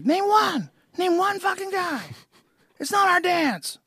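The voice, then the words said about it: Imitates another person's voice. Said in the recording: “that's a good impression. ... it was a really good impression.”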